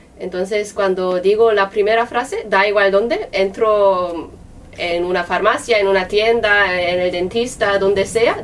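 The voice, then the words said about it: Speaks Spanish with a foreign-sounding accent. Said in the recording (Spanish): “sigo teniendo acento ... siempre la gente me dice, ¡ay, de dónde eres tú! ... ¿De dónde viene este acento? ... a ti te ven como extranjera ... cuando empiezo a hablar, sí”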